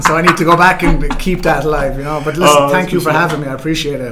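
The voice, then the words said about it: Thick Irish accent. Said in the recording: “his Irish accent ... the thickness ... the tick Irish accent ... It's a tick Irish accent.”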